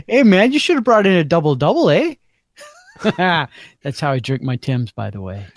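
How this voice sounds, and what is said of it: Put-on Canadian accent. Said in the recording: “Your Canadian accent is both spot on and offensive at the same time. ... you're so close that it's culturally offensive”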